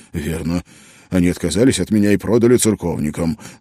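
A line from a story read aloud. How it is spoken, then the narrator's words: Angry. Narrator (Russian): зло произнес он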